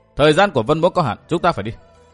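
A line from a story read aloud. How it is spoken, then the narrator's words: Cold laugh. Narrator (Vietnamese): Vân Thiên Nhạc lạnh lùng cười nói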